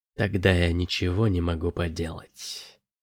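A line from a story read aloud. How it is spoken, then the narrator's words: Whispered. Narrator (Russian): прошептала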